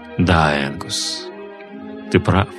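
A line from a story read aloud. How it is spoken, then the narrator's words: Quiet. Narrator (Russian): сказал негромко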